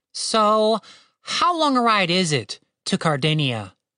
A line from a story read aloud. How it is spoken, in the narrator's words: Captain Righteous sighed